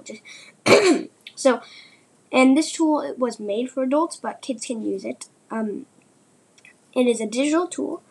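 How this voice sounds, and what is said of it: Voice sounds a little rough. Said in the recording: “my voice is a little bad right now”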